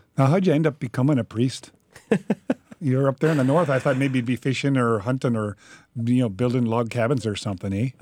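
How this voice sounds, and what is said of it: Stereotypical put-on Canadian accent. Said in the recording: “this stereotypical Canadian accent that ... is doing. It is so good.”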